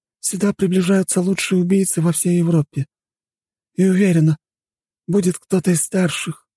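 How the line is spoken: Sighing. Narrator (Russian): вздохнула она

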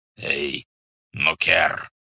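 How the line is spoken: Hoarse wheeze. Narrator (Russian): прохрипел Субдай-богатур

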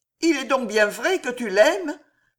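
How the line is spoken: Pained exclamation. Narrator (French): s'écria douloureusement Jeanne

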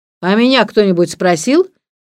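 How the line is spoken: Angry. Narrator (Russian): сердито сказал муж Мелии

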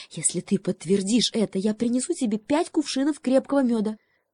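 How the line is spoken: Quick whisper. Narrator (Russian): быстро шепнула лисе

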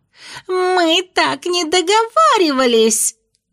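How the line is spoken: Squealing. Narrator (Russian): с визгами

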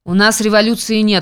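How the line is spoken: Cold interruption. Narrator (Russian): холодно перебивает губернатор

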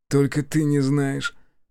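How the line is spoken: Sighing. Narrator (Russian): вздохнул он

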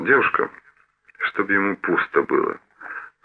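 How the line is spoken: Muttered. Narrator (Russian): пробормотал Хелмицкий

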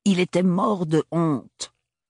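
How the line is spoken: Aunt's harsh voice. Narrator (French): déclara la tante Roseline d'une voix âpre

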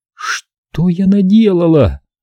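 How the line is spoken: Moaning aloud. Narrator (Russian): простонала она вслух

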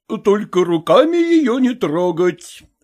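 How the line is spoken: Cook speaking, then laughing. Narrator (Russian): сказал повар и засмеялся

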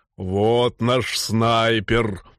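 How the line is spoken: Deep bass voice. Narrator (Russian): пробасил он

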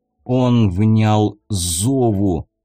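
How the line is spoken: Muffled reply. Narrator (Russian): глухо ответил магистр

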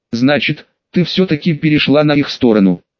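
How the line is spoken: Neither glad nor sad question. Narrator (Russian): Нерадостно, но и не грустно спросил Суигицу в ходе битвы

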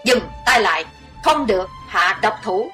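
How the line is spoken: Thunderous shout. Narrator (Vietnamese): một giọng quát như sấm nổi lên

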